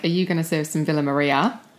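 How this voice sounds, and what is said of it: Put-on Australian accent. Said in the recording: “I'll sometimes slip into an Australian accent ... Do your Australian accent ... That's pretty good”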